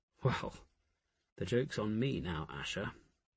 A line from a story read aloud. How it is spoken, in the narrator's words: Jophiel murmured